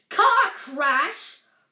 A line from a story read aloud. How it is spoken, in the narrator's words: roared Hagrid, so angrily